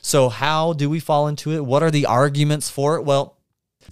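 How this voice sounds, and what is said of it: Usual voice. Nothing is said of it.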